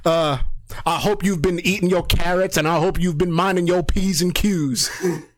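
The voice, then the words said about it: Put-on Southern US accent. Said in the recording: “Why am I doing it in a southern accent?”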